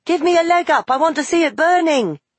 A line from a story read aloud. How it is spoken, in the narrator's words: cried Farid